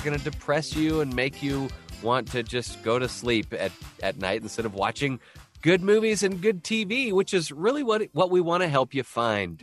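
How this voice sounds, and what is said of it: Sick-sounding voice. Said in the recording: “I sound so sick”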